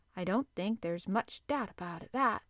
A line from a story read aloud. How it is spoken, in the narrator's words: Conseil replied quietly